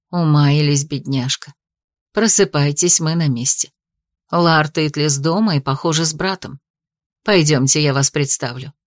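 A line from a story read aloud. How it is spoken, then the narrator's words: Gentle, smiling. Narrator (Russian): Хозяйка Арбисов мягко улыбнулась, и сказала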